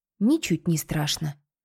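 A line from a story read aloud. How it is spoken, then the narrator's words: Whisper. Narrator (Russian): шепнула Кинта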